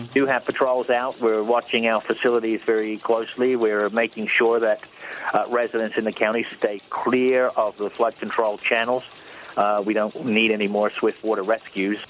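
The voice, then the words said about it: Australian or South African-sounding accent. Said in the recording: “What is that accent? It almost sounds Australian, but not quite. ... If it's not Australian, it could be South African, because the South African accent actually sounds kind of weirdly almost Australian sometimes.”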